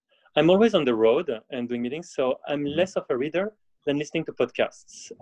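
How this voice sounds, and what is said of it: English with a French accent. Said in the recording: “in French, as you can see with my broken accent.”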